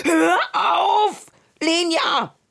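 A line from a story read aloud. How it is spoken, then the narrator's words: Shouting. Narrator (German): schrie er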